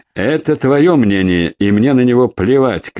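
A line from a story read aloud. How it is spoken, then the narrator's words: Shouting from behind crowd. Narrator (Russian): крикнул из-за голов оперативников Зубов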